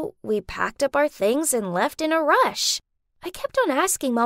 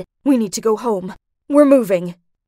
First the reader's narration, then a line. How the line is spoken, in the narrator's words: She in an urgent tone said